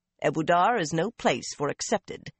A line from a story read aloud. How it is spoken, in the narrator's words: Carlinia said coldly